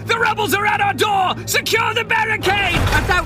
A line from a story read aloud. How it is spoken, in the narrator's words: Within, you hear voices shout